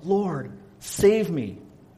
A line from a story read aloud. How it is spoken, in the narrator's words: He cried out